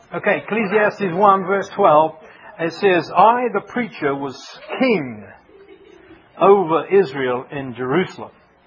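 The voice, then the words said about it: Unusual accent. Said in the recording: “don't worry about this weird accent. You'll get used to it after a while.”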